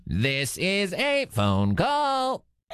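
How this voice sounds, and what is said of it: Robot voice. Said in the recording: “doing a little robot voice.”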